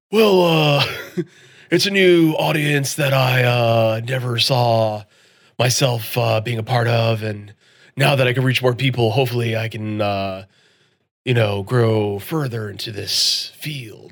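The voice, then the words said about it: Imitates another person's voice. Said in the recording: “I'm going to do my best Nick Cage impression.”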